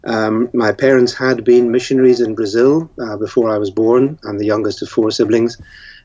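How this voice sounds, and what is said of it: Northern Irish accent. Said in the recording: “I, grew up in a Christian home in Northern Ireland. That's where the accent is.”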